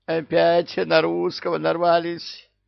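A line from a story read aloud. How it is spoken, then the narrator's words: Moaning coward. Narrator (Russian): простонал трус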